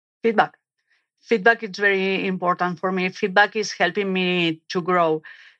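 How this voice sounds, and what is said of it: Strong non-native accent. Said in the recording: “My accent was very strong. ... this accent is part of me.”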